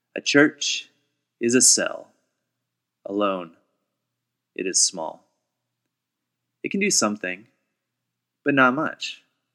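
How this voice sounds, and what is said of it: Audiobook narrator reading voice. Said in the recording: “in my best audible narrator voice”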